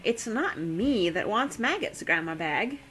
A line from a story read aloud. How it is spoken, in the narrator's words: Daisy said